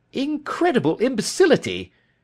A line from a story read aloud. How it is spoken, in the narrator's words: cried